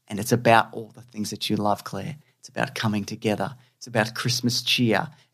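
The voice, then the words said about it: Australian accent. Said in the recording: “I think I've said that wrong, it's my Australian accent”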